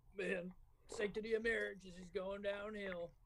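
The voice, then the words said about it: Put-on Southern US accent. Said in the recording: “That was a great fucking accent. ... it sounds like your fucking dad's from the south.”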